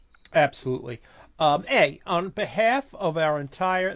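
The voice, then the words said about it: Slightly Canadian-sounding accent. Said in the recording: “that actually sounded a little Canadian there”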